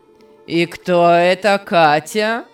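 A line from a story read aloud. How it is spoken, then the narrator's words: Angry shouting. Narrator (Russian): Сердито кричал Беннет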